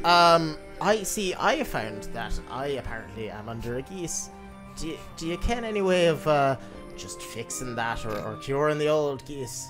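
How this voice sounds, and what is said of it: Put-on Scottish accent. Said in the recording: “Your accent threw me ... Scots halfling, we say.”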